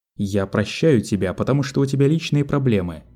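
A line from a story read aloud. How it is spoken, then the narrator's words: Plain. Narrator (Russian): сказал Айдахо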